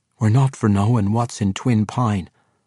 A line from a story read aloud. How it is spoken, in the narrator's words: Harnoth replied